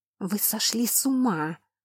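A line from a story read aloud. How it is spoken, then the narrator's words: Hiss. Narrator (Russian): прошипела я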